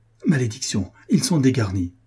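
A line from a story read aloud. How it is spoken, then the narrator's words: Exclaimed. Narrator (French): s'écria la Trémoille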